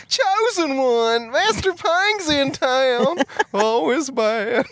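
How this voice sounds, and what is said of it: Put-on Southern accent. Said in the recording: “just like a southern accent”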